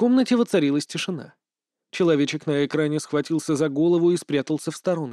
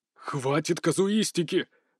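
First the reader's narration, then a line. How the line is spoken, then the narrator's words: Roar. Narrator (Russian): взревел Ван Шиэр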